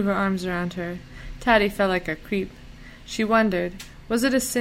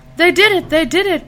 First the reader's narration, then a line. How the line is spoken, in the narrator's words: cried out